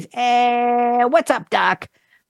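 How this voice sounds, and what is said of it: Cartoon rabbit voice, Brooklyn accent. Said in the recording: “Bugs Bunny ... characterized by a Brooklyn accent ... his catchphrase ... how'd I do, Jerry? Was that good? ... It was good enough.”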